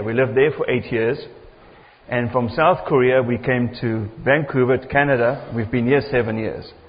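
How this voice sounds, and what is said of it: South African accent. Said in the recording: “my accent is a little bit different. ... I'm from South Africa originally.”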